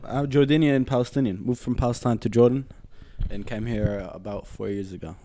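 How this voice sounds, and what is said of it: American English accent. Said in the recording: “that's why I have the American accent. Because I was, you know, we get taught American English there.”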